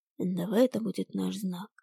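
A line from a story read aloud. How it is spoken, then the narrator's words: Whispered. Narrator (Russian): шепнул мне Ирис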